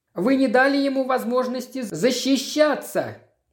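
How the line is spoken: Shout. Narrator (Russian): крикнул один из них

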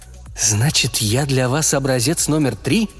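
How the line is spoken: Angry mutter. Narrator (Russian): зло пробормотала Надя

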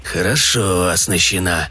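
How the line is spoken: Muttered. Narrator (Russian): пробормотал он

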